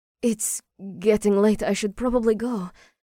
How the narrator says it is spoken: she sputtered

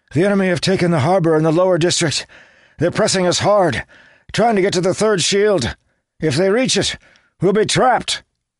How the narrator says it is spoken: he gasped to Paraith

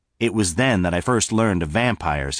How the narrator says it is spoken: he said

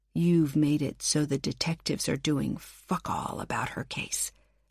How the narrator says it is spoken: I hissed

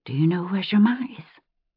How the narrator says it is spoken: whisper in her ear

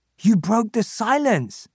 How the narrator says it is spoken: he exclaims

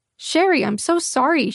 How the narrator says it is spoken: she exclaimed, her voice quivering with what I'm sure was remorse and definitely not barely contained glee at striking content gold

